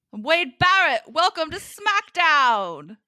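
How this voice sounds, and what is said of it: Bad put-on British accent. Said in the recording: “my Wade Barrett voice ... I know how bad my British accent is, terrible”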